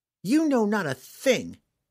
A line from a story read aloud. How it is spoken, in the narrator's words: Catterby spat in his face